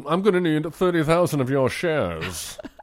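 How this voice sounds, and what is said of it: Put-on butler-like accent. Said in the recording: “That's not the accent he has in this movie... I don't know why I made him Jeeves.”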